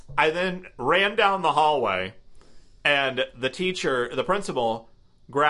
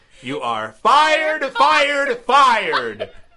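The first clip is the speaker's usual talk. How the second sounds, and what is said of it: Loud proclaiming declaration. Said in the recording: “in a proclamational voice”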